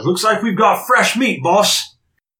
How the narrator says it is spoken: one of the other smaller ones there yells up and says

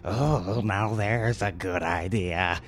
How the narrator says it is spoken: Uncle Smarmy chuckled

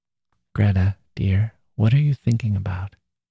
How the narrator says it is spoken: he said softly

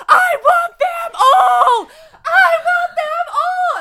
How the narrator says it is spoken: she just keeps yelling

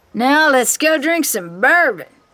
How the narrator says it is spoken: Travis shouts

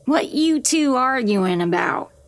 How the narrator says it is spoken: she croaks

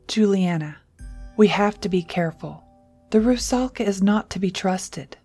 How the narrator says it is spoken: said, his voice heavy with concern

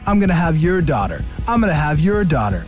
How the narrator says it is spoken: yelling into the crowd

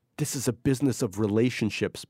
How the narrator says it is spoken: Barry kept whispering to her

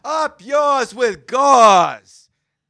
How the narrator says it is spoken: if he was in a really good mood, he'd shout out

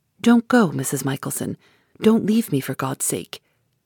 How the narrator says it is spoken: Lady Glyde whispered

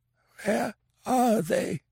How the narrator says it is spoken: It was a racking croak, not even remotely resembling a human voice

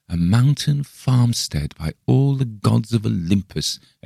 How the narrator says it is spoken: exclaimed Bergheim joyously

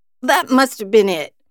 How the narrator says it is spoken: Lester croaked

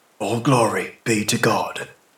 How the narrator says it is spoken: whispered his lips, accustomed to the old formula

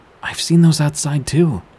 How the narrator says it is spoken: My mom got a little excited at this and exclaimed

